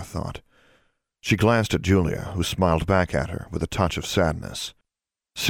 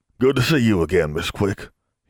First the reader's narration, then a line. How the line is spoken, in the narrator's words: he said gruffly